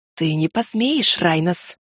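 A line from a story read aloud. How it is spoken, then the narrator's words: Hiss. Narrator (Russian): прошипел второй Бодарне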